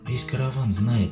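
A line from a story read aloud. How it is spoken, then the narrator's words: Quiet. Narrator (Russian): тихо заговорила она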